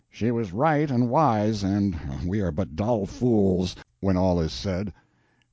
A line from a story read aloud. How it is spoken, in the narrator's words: The Sieur de Metz muttered as to himself